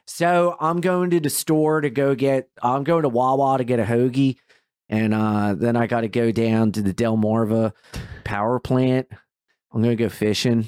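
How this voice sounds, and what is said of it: Put-on Delaware accent. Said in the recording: “it's a pretty trashy accent in certain people ... Do a Delaware accent.”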